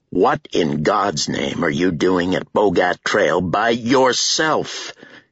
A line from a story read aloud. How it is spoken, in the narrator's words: thundered